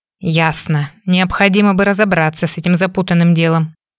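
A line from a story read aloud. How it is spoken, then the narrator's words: Grumbling. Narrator (Russian): заворчала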